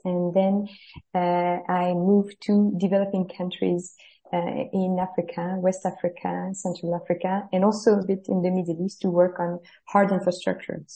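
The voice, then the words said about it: French accent in English. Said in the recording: “as you can guess from my accent, I'm very French.”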